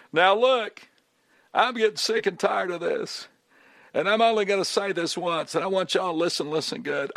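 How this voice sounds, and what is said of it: Imitates another person's voice. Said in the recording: “good Bill Clinton impersonation. Unfortunately, I don't have a good one.”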